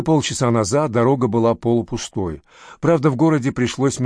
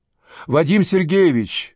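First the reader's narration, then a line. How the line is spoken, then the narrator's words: Shouted. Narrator (Russian): крикнул Виталий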